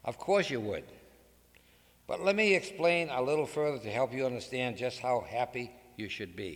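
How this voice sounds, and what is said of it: Massachusetts accent. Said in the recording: “my Massachusetts accent”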